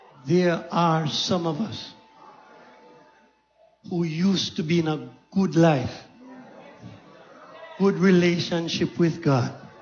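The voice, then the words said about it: Speaks softly. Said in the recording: “Can I say this softly? ... Can I say this softly?”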